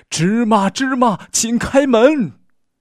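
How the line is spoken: Loud, mustering courage. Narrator (Chinese): 鼓起勇气，大声喊道

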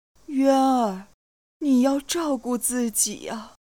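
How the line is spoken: Choked with tears. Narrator (Chinese): 李氏哽咽道

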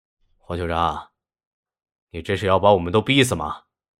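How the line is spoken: Low, grave voice. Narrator (Chinese): 白克龙沉声道

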